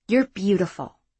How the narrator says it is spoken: Sherzad commented softly

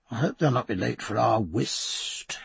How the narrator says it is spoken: he murmured

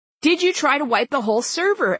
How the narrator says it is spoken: Ed called out

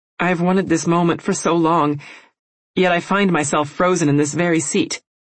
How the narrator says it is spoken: I said, my voice shaking

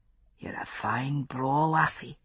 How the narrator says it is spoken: he whispered

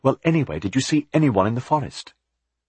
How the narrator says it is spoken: Jonathan said impatiently

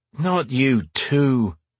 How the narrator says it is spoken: he groaned

